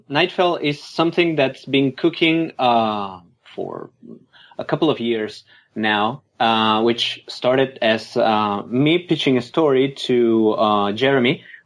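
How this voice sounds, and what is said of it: Thick accent. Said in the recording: “I hope that my accent isn't too thick, you know. So I'll make my best effort to be understood.”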